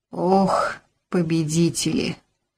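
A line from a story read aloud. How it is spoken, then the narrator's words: Sighing. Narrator (Russian): Вздохнула Зинаида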